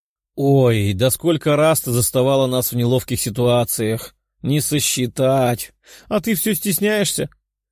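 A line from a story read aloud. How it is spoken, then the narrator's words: Laughing. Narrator (Russian): хохотнула синеволосая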